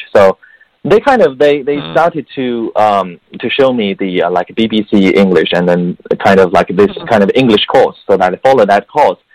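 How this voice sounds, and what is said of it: Slight Chinese accent, mostly British-sounding English. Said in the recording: “I have some Chinese accent, but most of the accent is sounding like British”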